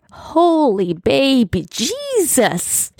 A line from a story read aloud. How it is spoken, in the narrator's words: moaned